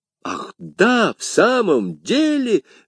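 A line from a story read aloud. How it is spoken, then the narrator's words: Two voices exclaiming. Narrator (Russian): воскликнули Портос и Д'Артаньян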